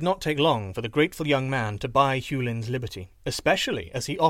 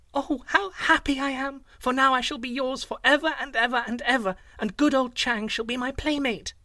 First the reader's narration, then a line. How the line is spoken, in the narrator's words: she cried out